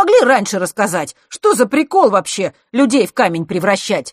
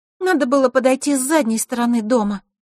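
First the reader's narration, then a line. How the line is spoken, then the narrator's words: Sad. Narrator (Russian): грустно произнесла Диана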